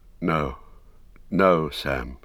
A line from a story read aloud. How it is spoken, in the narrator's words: he said sadly